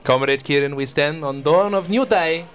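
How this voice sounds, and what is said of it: Put-on foreign stereotype accent. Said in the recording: “That accent. Are you going to keep this up for the entire show? ... racial stereotypes are fun”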